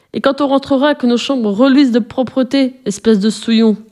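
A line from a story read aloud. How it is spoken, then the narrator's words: Shouted with nasty laugh. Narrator (French): lui cria-t-il avec un rire mauvais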